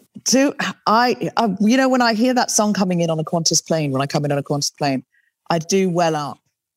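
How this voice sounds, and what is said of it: English-sounding accent, not Australian. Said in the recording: “those who are perhaps unfamiliar with you might not know from your accent, but you grew up in Australia ... I picked up the accent for the books”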